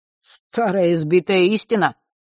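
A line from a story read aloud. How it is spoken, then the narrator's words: Dismissive snort. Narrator (Russian): пренебрежительно фыркнул тот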